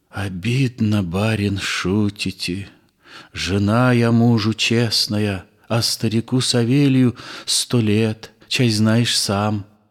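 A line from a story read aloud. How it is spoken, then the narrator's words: Whispered answer. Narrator (Russian): Я шепотком ответила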